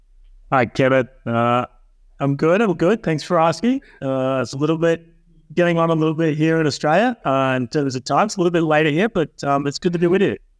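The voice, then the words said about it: Charming Australian accent. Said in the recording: “he's from Australia, if you didn't notice by his accent yet, which is, of course, charming”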